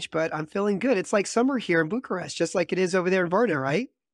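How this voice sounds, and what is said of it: Slightly strange, congested voice. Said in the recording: “I've got a little cold, so my voice sounds a little a little strange”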